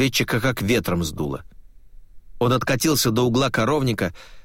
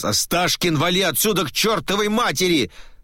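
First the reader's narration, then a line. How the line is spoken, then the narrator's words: Yelling. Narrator (Russian): заорал Глеб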